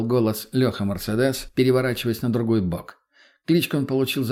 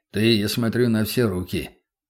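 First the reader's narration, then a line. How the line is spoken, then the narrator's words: Wry grunt. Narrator (Russian): хмыкнул Мельниченко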